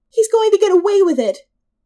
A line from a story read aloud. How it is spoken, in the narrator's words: the older of the two women cried, tears streaming down her red face in rivers